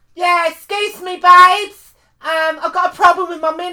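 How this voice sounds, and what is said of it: Put-on chavvy voice. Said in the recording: “Do your chavvy voice”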